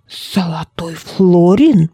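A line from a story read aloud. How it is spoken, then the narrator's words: Whisper. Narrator (Russian): прошептал он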